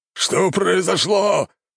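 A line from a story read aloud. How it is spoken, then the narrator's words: Growling. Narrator (Russian): зарычал лорд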